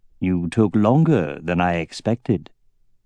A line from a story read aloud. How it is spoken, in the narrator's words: said Galbatorix in a deceptively mild voice